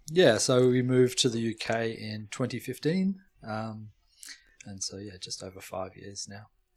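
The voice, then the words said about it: Australian accent. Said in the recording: “your accent probably gives you away ... you're originally from Australia”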